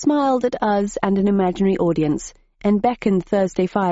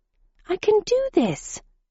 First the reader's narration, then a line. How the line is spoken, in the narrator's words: she exclaimed